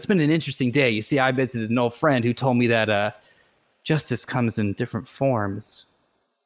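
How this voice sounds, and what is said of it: Put-on accent, slipping in and out. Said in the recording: “You don't mind if the accent comes in and out.”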